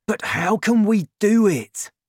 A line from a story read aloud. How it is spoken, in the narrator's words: he cried